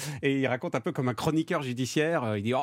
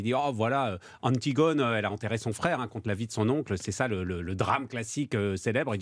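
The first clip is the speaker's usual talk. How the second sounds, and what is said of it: Southwestern French accent. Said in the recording (French): “il a un accent du Sud-Ouest”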